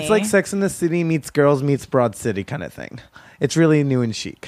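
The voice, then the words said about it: Teasing girly imitation voice. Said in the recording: “were you imitating me? ... I was teasing. ... I thought that was just your girl voice. ... That's my girl voice.”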